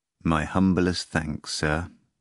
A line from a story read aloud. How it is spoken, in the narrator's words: the man replied just as mournfully